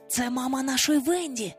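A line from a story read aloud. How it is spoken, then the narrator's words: Whisper. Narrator (Ukrainian): прошепотів він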